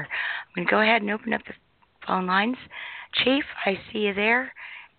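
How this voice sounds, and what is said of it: Slightly hoarse voice. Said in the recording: “You do sound just a little bit hoarse. Yes, I am. ... I'm still suffering the effects from being ill.”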